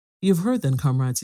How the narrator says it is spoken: said

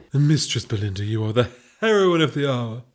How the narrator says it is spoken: purred the Duchess

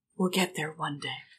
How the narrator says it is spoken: Brian just softly whispers

